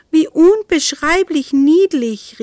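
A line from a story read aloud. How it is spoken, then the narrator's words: Calling out. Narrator (German): rief sie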